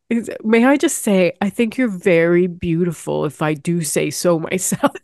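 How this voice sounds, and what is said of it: Put-on English accent. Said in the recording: “This is an English accent, by the way.”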